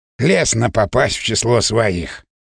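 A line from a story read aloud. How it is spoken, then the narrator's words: Snorting. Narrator (Russian): хмыкнул Леонид Ильич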